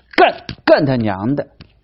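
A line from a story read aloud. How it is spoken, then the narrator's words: Furious roar. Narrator (Chinese): 这一声怒吼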